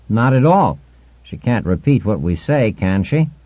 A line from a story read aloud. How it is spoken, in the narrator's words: He laughed at his own joke